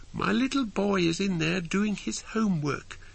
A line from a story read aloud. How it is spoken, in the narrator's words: she explained in a high-pitched squeak